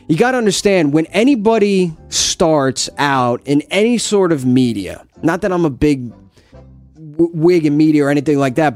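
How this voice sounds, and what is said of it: New Jersey accent. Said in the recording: “this is a New Jersey accent. Some people think it's a Philadelphia accent. It is absolutely not.”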